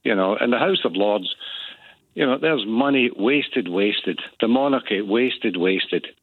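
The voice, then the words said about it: Frustrated, agitated speaking voice. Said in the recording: “I'm really frustrated, as you can probably hear by my voice”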